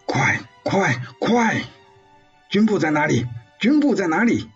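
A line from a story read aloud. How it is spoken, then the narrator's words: Urgent asking mid-battle. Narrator (Chinese): 林志超一路杀过去，一路问着沿途碰到的伤员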